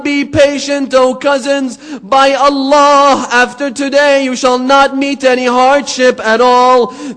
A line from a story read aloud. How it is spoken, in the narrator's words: Hussein called out to them